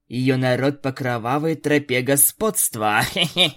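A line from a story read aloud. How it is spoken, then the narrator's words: Mocking laugh. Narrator (Russian): посмеялась Аланис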